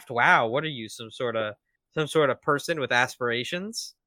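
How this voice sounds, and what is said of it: Imitates a fictional character's voice. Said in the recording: “my Hiyoko impression”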